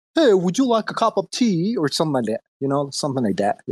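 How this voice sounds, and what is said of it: Bad put-on British accent. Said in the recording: “your British accent is fucking horrible”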